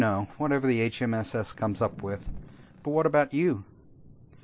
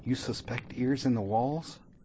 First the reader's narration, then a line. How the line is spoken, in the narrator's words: Rajira whispered